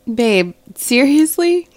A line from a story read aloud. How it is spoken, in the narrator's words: She giggled